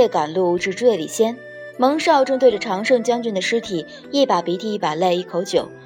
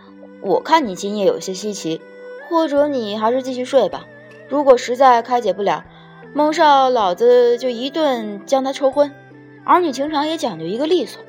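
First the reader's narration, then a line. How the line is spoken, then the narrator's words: Mock-mature sigh. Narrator (Chinese): 做老成状叹了口气道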